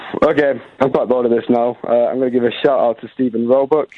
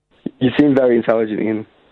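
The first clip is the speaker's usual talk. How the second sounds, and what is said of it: Sarcastic remark. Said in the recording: “Sarcasm”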